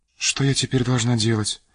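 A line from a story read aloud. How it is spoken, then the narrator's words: Quiet trembling question. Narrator (Russian): спросила она губернатора тихим и дрожащим голосом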